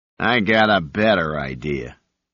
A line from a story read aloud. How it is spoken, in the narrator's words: the leader sneered